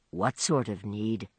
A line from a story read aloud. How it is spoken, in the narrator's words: He lowered his voice to ask